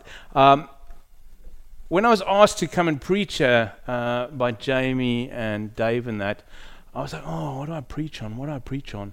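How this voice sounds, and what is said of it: South African accent. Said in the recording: “From the accent, you can probably hear I'm not English. I am South African, born in Zimbabwe, moved to South Africa, and then over to England.”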